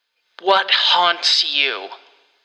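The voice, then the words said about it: Eerie echoey voice. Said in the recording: “in an eerily echoey voice”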